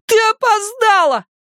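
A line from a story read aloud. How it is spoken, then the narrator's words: Shouted. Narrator (Russian): закричал он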